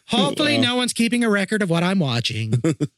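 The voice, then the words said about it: Church lady character voice. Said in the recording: “in my best church lady voice”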